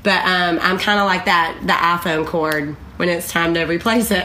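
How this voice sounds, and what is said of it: Southern US (Alabama) accent. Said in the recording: “my dear friend from Alabama... That's the accent.”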